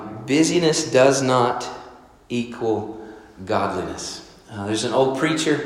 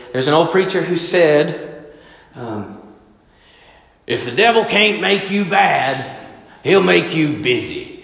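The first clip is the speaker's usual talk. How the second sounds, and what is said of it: Old preacher's voice. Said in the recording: “this will be my old preacher voice”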